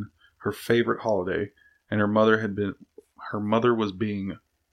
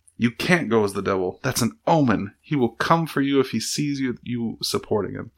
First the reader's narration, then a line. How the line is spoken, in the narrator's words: exclaimed